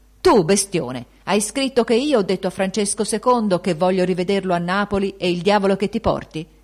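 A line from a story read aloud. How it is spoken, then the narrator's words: Shouted in his face. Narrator (Italian): gli gridò sul muso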